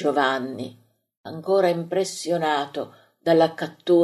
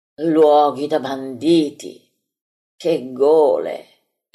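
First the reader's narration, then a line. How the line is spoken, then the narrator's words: Many voices exclaiming. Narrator (Italian): esclamano in molti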